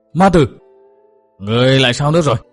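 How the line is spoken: Terrified scream. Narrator (Vietnamese): kinh hãi hét lên

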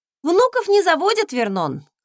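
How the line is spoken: Wry snort. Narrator (Russian): хмыкнула

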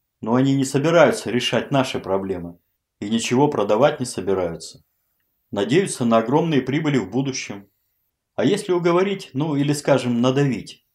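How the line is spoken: Plain. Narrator (Russian): спросил Малышев

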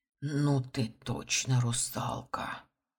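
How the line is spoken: Amazed whisper, old man. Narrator (Russian): прошептал пораженный дед

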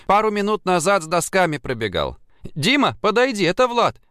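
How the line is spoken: Shouting. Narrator (Russian): крикнула она

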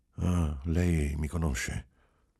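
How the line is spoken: Anguished quiet sigh. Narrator (Italian): Sospirò, angosciato, e disse piano

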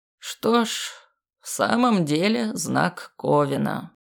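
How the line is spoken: Grim. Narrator (Russian): мрачно произнес мужчина

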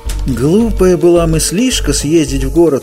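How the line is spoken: Moaning. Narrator (Russian): простонал трубадур

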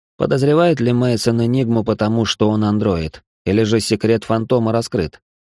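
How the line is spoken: Plain. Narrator (Russian): спросил Алан

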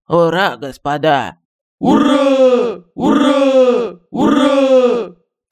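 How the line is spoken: Rousing barked chorus, thrice. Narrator (Russian): Троекратно с подъемом рявкнул строй

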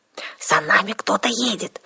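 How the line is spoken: Whisper. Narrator (Russian): прошептала Арсана

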